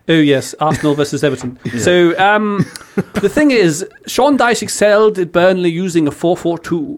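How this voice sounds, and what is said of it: Put-on posh English accent. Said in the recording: “Do your posh English one, that's good as well.”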